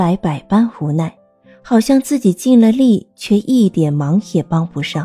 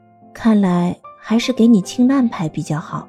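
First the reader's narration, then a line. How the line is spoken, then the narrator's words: Gentle, comforting. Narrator (Chinese): 他用安慰的眼神，温柔的对钟兰人说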